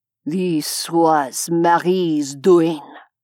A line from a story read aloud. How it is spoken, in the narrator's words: Richelieu said, his voice a dangerous hiss